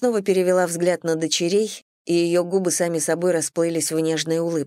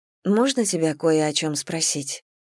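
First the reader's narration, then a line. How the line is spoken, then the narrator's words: Quiet. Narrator (Russian): тихо произнесла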